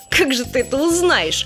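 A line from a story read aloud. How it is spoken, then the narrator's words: Smiling jolly man. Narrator (Russian): улыбнулся хохотун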